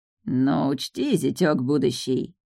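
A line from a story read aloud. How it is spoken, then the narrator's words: Hissed. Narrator (Russian): зашипел второй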